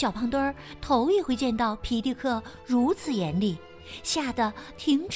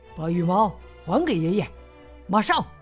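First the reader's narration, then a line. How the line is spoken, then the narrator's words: Angry loud scolding. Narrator (Chinese): 他生气的大声斥责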